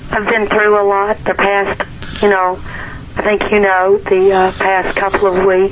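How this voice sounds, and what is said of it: Hoarse, strained voice. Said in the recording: “I'm a little hoarse tonight, so please bear with me ... throat's a little gone”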